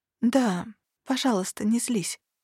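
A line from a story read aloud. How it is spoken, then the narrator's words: Quiet reply. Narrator (Russian): откликнулась я тихо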